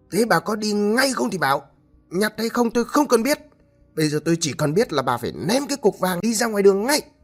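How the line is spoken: Shouting. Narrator (Vietnamese): Ông Hải mới quát lên

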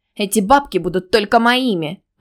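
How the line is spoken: Snapped back. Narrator (Russian): огрызнулась Алина

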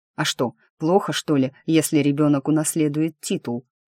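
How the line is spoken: Dry snort. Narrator (Russian): хмыкнул он

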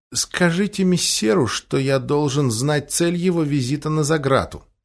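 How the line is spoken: Wary mumble. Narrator (Russian): Он передохнул, промямлил

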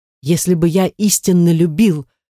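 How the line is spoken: Exclaiming. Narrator (Russian): воскликнул Воланкур

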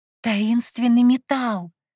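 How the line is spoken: Exclaiming. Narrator (Russian): воскликнула я

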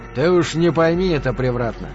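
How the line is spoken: Muttered. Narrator (Russian): один из троицы буркнул

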